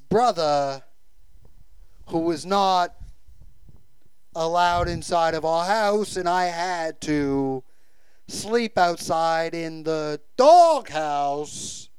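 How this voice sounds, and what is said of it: Christopher Walken impression. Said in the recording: “Christopher Walken ... great impression.”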